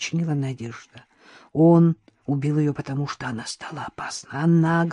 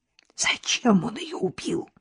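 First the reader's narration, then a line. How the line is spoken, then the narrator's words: Agitated whispered question. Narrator (Russian): спросила я, таким же взволнованным шепотом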